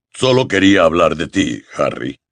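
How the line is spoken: Low voice. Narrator (Spanish): continuó Hagrid en voz baja

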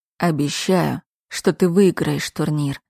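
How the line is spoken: Low muffled male voice. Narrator (Russian): глухо произнес мужчина

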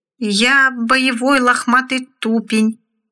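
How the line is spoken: Uncertain voice. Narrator (Russian): неуверенным голосом произнес поганец

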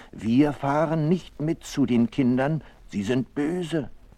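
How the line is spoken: Mother duck calling out. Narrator (German): ruft die Entenmutter

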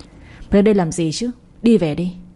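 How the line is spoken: Quiet trembling voice. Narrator (Vietnamese): Tiếng nói rất nhỏ, xen lẫn cả sự run rẩy

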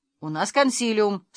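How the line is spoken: Said sternly. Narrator (Russian): строго сказал Дручкин

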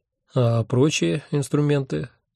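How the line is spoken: Lazy inquiry. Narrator (Russian): лениво поинтересовался я

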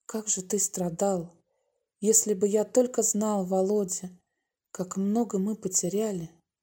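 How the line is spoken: Whispered. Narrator (Russian): прошептал Юра

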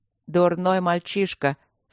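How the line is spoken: Tired. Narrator (Russian): сказал Луциус устало

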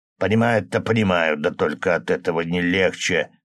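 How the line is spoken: Grumble. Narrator (Russian): проворчал Григорий Семенович

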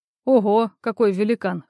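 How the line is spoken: Short laugh. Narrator (Russian): хохотнул Акопов

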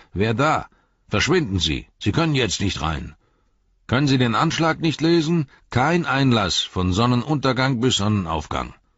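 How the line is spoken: Shout from the darkness. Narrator (German): Eine Stimme rief durch die Dunkelheit

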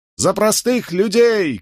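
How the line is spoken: Shouted reply. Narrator (Russian): крикнул в ответ повстанец

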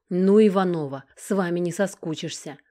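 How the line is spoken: Snorting. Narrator (Russian): хмыкнул майор

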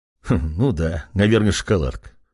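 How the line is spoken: Young man chuckling. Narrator (Russian): хохотнул парень

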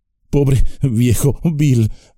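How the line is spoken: Halting, choked voice. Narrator (Spanish): dijo con voz entrecortada

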